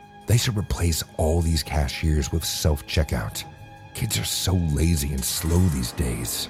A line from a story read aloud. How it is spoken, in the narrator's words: say in a fake whisper